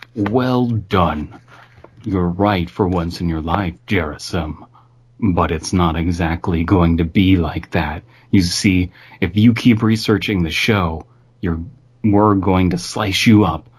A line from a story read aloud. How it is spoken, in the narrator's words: He muttered